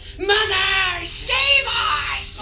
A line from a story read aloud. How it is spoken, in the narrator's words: Down he goes as he screams out